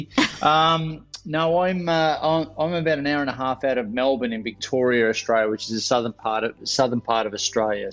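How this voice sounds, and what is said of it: Australian accent. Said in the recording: “I'm obviously from the accent. I'm from Australia,”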